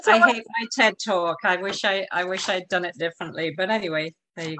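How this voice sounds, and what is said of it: British accent. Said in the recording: “I forgot you had a British accent.”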